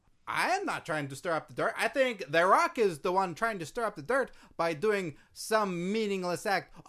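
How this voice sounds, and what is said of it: Put-on accent, possibly sarcastic. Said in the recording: “I was having trouble with your accent. I wasn't sure if you were being sarcastic or if it was your accent.”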